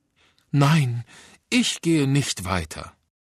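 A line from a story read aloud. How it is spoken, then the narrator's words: Sighing girl. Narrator (German): seufzte das eine Mädchen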